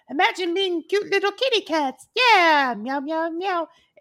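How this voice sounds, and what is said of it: Cutesy cat character voice. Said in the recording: “I need to do it in the voice ... do the cat voice”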